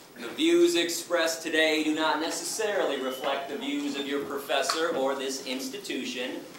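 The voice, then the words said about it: Slight accent. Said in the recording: “He's got a little accent.”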